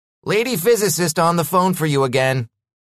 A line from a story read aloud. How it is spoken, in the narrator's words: Carl called out